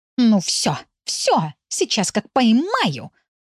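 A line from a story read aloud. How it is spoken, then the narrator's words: Growling. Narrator (Russian): рычала Пунька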